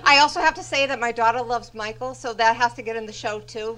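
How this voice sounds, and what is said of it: Massachusetts accent. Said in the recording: “I think I hear a Massachusetts accent.”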